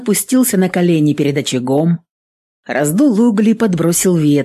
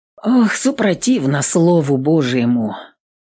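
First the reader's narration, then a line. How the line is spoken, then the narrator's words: Sighed. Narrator (Russian): вздохнул отец Дмитрий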